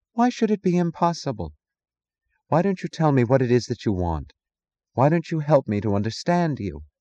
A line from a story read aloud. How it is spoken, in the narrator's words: He sighed